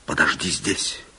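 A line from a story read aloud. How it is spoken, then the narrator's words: Whispering man. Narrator (Russian): шепнул барон служанке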